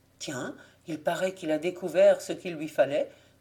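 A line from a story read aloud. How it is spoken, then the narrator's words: Muttered to himself. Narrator (French): murmura Jean-René à part soi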